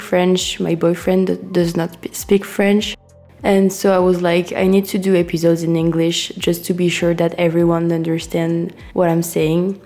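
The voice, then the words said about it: Sick, nasal congested voice. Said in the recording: “sorry for my voice because um, as you can see, I'm sick, so I'm just talking with my nose a bit”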